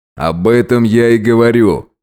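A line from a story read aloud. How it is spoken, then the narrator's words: Smirking grunt. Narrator (Russian): хмыкнул Роберт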